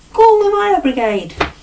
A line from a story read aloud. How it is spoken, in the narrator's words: yelled the police chief